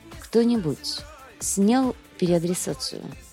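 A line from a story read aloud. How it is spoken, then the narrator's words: Weary question. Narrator (Russian): устало спрашивает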